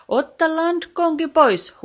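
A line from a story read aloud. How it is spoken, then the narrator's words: Captain shouting. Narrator (Finnish): huusi kapteeni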